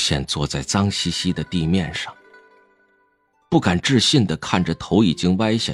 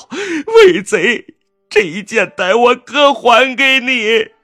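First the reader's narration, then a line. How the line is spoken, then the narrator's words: Sobbing, tearful. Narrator (Chinese): 年轻修士，他还在哇哇大哭，泪眼朦胧地道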